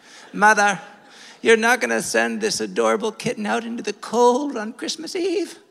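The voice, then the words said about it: Put-on British accent. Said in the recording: “she developed a British accent at this point”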